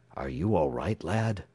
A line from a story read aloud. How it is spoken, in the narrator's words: whispered the detective